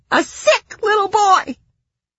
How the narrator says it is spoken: she sobbed

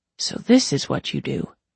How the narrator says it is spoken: he murmured

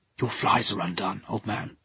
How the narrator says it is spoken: Simonson whispered

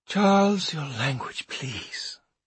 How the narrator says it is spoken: said Maud with a sigh

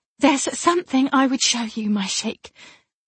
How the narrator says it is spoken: she said breathlessly

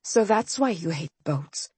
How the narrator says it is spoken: I murmured

